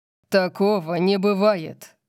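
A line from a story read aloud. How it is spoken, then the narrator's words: Growling. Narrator (Russian): прорычал Орион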